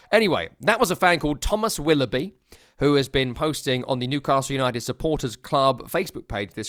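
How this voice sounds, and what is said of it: Usual voice. Nothing is said of it.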